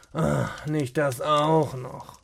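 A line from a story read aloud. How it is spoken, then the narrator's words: Frustrated muttering. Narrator (German): murmelte er frustriert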